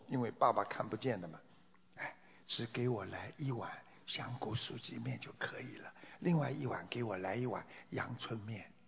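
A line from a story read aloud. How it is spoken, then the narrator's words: Quiet. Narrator (Chinese): 女儿小声地说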